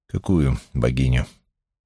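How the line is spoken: Calm, hiding displeasure. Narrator (Russian): Но он скрыл свое недовольство и спокойно спросил

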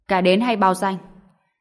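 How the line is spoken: Frustrated loud shout. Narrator (Vietnamese): Tá Đằng Mộc căn bản không thể nắm bắt được, đành phải lớn tiếng quát

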